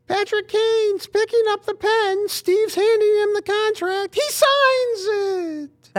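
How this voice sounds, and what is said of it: High-pitched, poor imitation of another person's voice. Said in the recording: “That was way too high-pitched for Ken Kell. That's like almost insulting. ... That was a terrible Ken Kell impression.”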